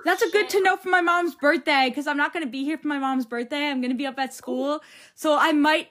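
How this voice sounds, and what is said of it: Long Island accent. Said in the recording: “I'm from Long Island. ... I hear your accent.”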